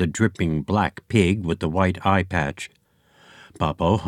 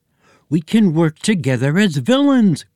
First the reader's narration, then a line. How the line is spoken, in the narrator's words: cried Boppo